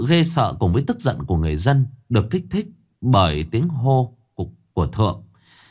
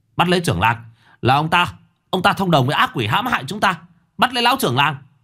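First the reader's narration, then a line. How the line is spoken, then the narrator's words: Shouting. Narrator (Vietnamese): Thượng cũng hét lên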